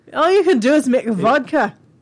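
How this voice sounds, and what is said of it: Slips into a Scottish accent. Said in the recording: “I kind of went Scottish there, sorry.”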